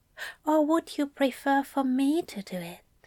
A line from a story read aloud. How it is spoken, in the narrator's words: Aziraphale whispered